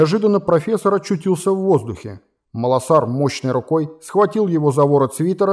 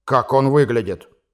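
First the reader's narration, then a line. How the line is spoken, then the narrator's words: Menacing, through clenched teeth. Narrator (Russian): грозно спросил владелец замка, стиснув оскаленные зубы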